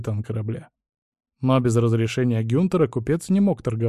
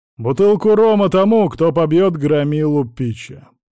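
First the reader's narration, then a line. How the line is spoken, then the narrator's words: Loud commanding announcement. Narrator (Russian): громко произнес начальник стражи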